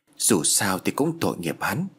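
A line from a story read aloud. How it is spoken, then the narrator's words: Hesitant mutter. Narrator (Vietnamese): anh lẩm bẩm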